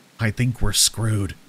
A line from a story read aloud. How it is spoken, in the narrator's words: Dimitri whispered